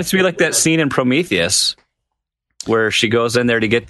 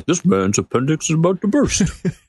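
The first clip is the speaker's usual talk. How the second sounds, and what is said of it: Doctor Hibbert impression. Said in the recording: “That was a pretty good impression.”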